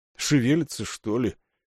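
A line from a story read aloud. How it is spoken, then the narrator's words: Muttering. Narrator (Russian): бормочет за моей спиной Равана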